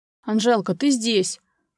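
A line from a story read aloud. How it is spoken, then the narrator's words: Loud, agitated voice. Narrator (Russian): громко проговорил взволнованным голосом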